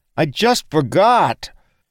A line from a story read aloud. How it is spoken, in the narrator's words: crying out in pain, Sane managed to scream at Daylin